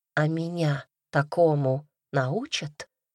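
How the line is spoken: Asked in an undertone. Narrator (Russian): спросила вполголоса

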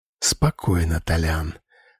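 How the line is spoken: Whispered. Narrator (Russian): прошептал я

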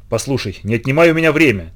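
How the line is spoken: Irritated curt remark. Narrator (Russian): раздраженно бросила Дорис

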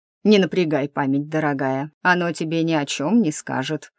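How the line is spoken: Chuckled. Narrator (Russian): хохотнул мужчина

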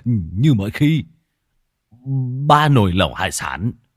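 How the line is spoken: Startled stammer. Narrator (Vietnamese): Lão Thọt giật mình, lắp bắp

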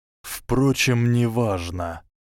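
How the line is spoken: Said with a sigh. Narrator (Russian): сказал Ремус и вздохнул

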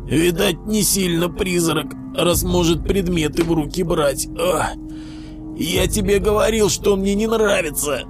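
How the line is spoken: Hoarse, into ear. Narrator (Russian): прохрипел Пятак Костику в ухо

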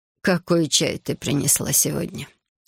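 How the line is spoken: Sleepy question. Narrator (Russian): сонно спрашивает госпожа Ко

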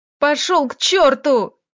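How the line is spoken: Yelling. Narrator (Russian): Заорала она

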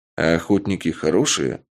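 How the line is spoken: Plain. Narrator (Russian): спросил я

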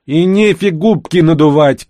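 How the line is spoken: Shout after someone. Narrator (Russian): крикнула ей вслед Карина

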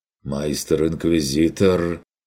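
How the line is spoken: Uncertain. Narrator (Russian): проронил он неуверенно

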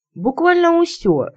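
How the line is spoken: Joyful crow's caw. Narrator (Russian): радостно каркнула ворона

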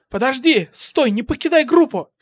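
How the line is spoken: Shouted. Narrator (Russian): крикнула 13-я

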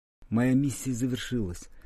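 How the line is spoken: Barely audible. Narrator (Russian): еле слышно сказал он

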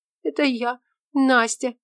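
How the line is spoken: Sobbing. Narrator (Russian): всхлипывая, проговорила она

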